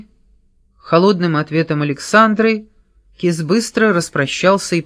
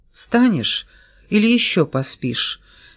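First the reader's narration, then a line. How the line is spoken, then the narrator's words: Tender question. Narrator (Russian): нежно спросила она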